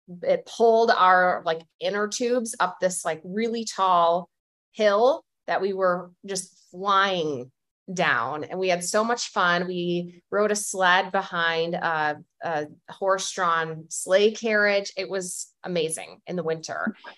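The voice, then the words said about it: Strong Chicago accent. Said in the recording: “I heard your Chicago accent just come out ... you went full Chicago.”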